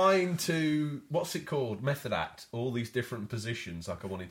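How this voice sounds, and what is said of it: Usual voice. Nothing is said of it.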